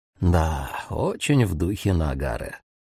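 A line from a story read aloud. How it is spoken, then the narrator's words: Muttered. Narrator (Russian): пробормотал Кубояма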